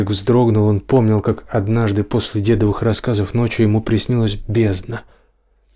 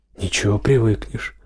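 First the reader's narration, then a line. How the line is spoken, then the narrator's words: Objecting. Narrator (Russian): возразил Серега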